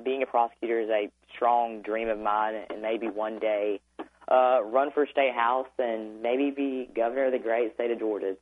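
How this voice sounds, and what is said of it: Georgia Southern accent. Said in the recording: “I love your accent. I was born in Georgia.”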